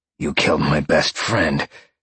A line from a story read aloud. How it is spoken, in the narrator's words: Sean growled down at him